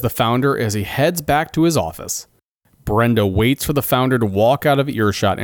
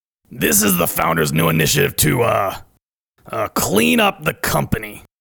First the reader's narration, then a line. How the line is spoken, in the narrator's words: grumbles Debbie in a cross voice